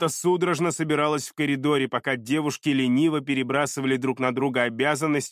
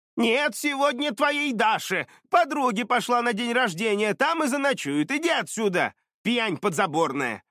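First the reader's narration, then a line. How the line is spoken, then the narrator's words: Grandmother shouting through door. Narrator (Russian): прокричала через дверь Дашина бабушка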